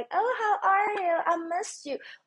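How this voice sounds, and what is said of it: Mocking high falsetto voice. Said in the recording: “that whole falsetto”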